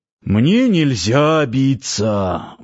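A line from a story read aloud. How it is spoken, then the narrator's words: Sighing. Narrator (Russian): вздохнул Парсыкин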